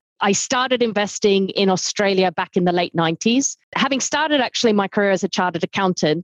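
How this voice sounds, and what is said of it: Non-European accent. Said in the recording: “as you can probably tell from my accent, I'm not European”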